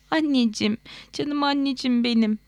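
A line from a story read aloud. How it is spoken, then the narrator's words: Sobbing. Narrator (Turkish): diye hıçkırdı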